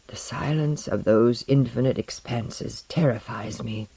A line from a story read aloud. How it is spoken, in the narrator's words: muttered Tomiko